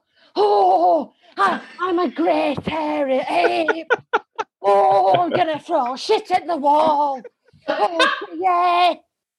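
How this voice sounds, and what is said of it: Celebrity impression as an ape. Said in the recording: “do a celebrity impersonation while also impersonating an ape ... I could do Supalad as an ape”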